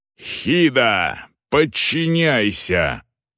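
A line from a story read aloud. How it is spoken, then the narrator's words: Growled. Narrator (Russian): прорычал Агнар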